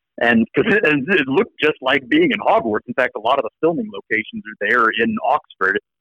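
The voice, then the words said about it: American accent. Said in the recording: “you speak with your American accent ... I still had an American accent”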